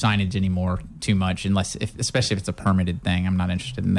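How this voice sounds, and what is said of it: Usual voice. Nothing is said of it.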